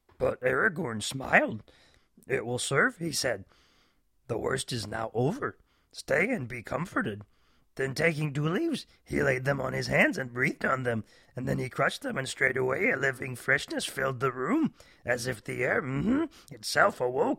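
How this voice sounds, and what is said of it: Terrible Yoda impression. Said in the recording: “my terrible impression of Yoda”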